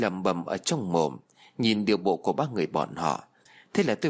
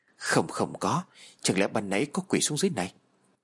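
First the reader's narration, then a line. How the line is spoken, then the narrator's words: Frightened. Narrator (Vietnamese): Cả ba nhân viên biểu lộ khuôn mặt vô cùng sợ hãi ... nói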